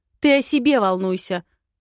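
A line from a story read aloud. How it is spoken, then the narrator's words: Barking. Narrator (Russian): гаркнула я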